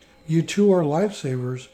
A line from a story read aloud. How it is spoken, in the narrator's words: exclaimed